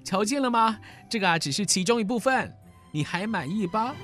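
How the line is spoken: Grinning laugh. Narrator (Chinese): 罗宾汉咧嘴笑了起来

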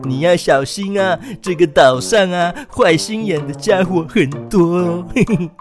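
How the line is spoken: Smiling. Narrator (Chinese): 小猪笑着继续说

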